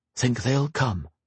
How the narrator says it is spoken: Grey whispered to Kyla

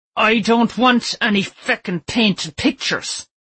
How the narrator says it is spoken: he roared

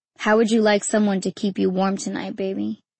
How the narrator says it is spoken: he said

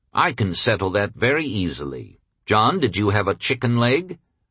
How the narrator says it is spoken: said quietly

